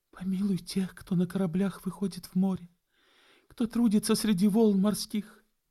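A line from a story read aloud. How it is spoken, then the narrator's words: Soft whispering. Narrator (Russian): И губы ее тихонько шептали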